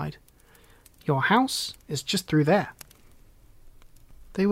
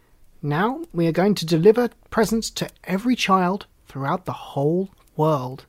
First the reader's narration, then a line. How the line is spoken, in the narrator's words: exclaimed Dar